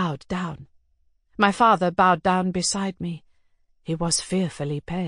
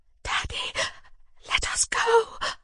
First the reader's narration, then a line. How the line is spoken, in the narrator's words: I whispered in terror